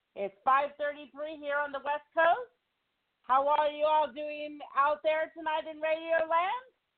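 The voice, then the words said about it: Slightly out of breath speech. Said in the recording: “I'm a little out of breath,”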